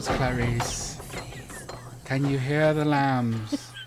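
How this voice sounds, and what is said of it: Bad Hannibal Lecter impression. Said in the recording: “worst Hannibal Lecter impersonation”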